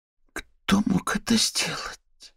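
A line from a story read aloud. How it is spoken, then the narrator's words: Female whisper. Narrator (Russian): прошептала Вера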